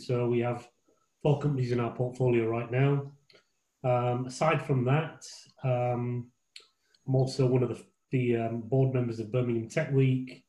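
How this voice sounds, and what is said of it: Hoarse, fading voice. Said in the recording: “I'm losing my voice because this is the 4th Zoom I'm on this evening”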